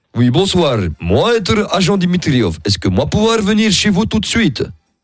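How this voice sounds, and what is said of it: Exaggerated fake Russian accent. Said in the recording (French): “Si vous êtes russe, je suis désolé de, de massacrer. ... tu fais l'accent arménien”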